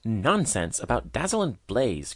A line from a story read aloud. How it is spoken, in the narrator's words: cried the old spider, now thoroughly roused